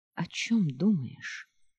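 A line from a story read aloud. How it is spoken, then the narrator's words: Quiet question. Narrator (Russian): тихо спросила Хейлиин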